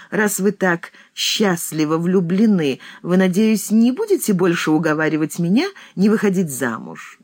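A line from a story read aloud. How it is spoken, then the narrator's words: Laughing question. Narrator (Russian): смеясь, спросила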